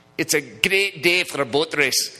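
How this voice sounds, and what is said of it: Put-on Scottish accent. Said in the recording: “that one accent that they have ... every single one of you knows that was a good Scottish accent”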